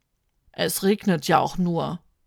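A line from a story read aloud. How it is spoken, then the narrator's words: Groan. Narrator (German): stöhnt Fete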